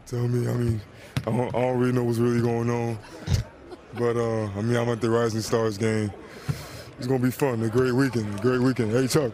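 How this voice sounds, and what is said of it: Imitates another person's voice. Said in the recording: “Does a nice little Shaq impersonation. ... a very good Shaq impersonation.”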